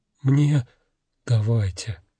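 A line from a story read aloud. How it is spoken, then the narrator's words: Soft repetition. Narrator (Russian): мягко повторил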